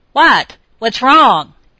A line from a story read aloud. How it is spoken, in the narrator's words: he shouted